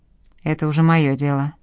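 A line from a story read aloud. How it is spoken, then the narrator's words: Grumbled mutter. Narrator (Russian): буркнул Ройтман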